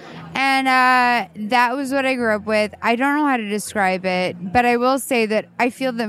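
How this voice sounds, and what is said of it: Vocal fry. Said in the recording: “yes, I have vocal fry”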